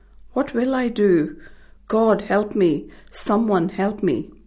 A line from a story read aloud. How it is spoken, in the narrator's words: My mother cried